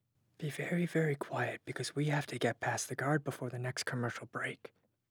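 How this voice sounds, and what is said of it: Whispering. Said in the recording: “Here's a line in a whisper.”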